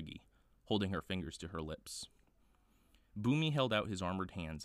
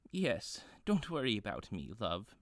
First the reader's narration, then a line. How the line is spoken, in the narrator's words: she said, chuckling to herself